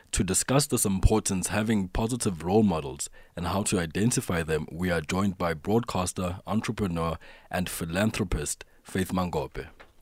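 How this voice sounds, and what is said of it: Beautiful radio voice. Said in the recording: “what a beautiful radio voice you've got there”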